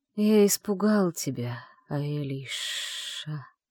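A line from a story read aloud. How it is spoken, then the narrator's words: Regretful drawl, ancient being. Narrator (Russian): с явным сожалением протянул древнейший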